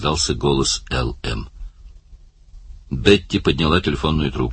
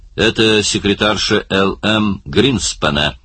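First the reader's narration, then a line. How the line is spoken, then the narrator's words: Plain. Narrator (Russian): сказала она Барни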